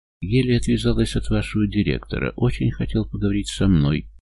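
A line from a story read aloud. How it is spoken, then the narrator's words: Muttering. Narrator (Russian): бормочет она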